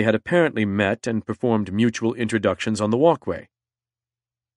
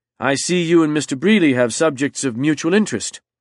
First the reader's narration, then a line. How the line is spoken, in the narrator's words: said James loudly